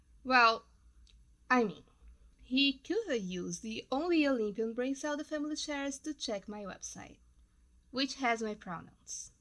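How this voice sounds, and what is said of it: Noticeable foreign accent. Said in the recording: “yes, I have an accent. ... It just means I'm bi. Lingual”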